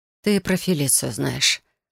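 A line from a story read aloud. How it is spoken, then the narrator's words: Disappointed sigh. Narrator (Russian): разочарованно вздохнула я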